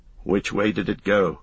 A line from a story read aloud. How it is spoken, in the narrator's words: asked Strider suddenly and sharply